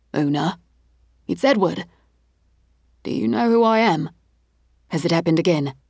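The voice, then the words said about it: Anxious working-class British accent. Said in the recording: “Trepidation in his tone. A British accent. Less royal family, more Michael Caine.”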